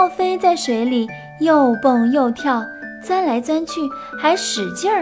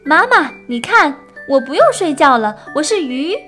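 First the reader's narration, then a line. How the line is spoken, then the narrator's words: Loud shout. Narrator (Chinese): 奥菲大声叫着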